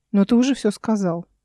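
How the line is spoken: Displeased tone. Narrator (Russian): пояснил Эл недовольным тоном

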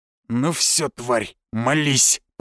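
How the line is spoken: Growled threat. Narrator (Russian): прорычал он

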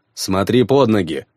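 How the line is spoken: Snapping retort. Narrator (Russian): огрызнулся я

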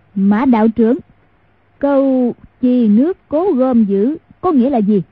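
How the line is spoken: Loud voice. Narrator (Vietnamese): lớn tiếng nói

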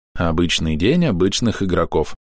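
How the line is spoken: Badger sighing. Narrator (Russian): вздохнул барсук

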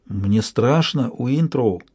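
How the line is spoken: Muttered, frightened woman. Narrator (Russian): пробормотала бывшая шлюха

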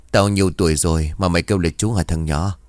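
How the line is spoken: Old man, teasing smile. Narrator (Vietnamese): Ông Được mỉm cười rồi trêu chọc

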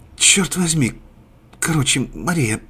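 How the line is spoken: Whisper. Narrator (Russian): прошептала Маргарита

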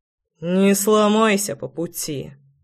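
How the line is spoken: Muttering. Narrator (Russian): Пробормотал Кирпич

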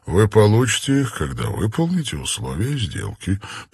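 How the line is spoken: Pleasant voice. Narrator (Russian): приятным голосом произнес Данрос

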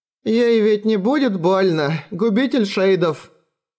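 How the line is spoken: Old woman's trembling voice. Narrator (Russian): спросила старая Грета дрожащим голосом

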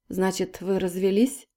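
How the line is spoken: Laughing. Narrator (Russian): Полина засмеялась

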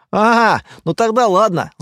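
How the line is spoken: Laughing. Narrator (Russian): засмеялся Стас

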